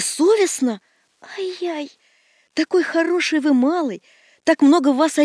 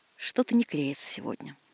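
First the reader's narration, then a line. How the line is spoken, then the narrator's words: Muttering. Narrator (Russian): бормочет ученый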